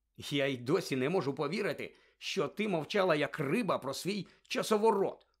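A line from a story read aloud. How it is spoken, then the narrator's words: Grumbling. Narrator (Ukrainian): буркнув Рон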